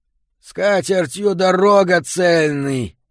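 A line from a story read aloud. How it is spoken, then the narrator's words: Muffled shout. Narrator (Russian): крикнул он своим приглушенным голосом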